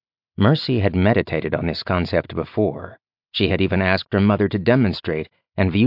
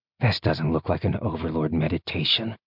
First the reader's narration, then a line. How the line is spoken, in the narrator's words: he muttered